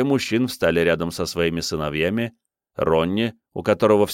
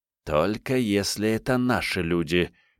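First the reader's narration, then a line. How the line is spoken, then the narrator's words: Father hissing. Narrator (Russian): прошипел отец Ронни, наклонившись к ней так близко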